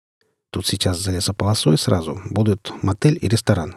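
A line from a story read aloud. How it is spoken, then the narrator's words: Plain. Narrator (Russian): сказал он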